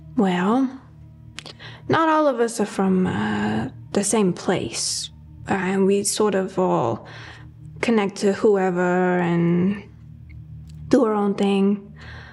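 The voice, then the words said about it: Strong unusual accent. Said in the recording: “I've got this really bad accent”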